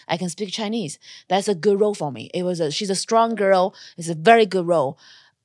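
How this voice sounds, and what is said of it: Non-native English, Asian accent. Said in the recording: “my accent is just not helping me because they don't have roles written for a girl that's not born in America, an Asian girl”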